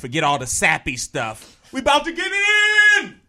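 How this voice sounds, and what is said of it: Screaming excitedly. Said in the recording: “He's screaming.”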